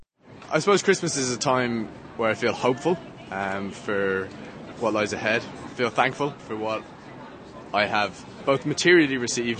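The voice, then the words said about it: Irish accent. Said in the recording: “I'm from Ireland, as you can probably tell from the accent”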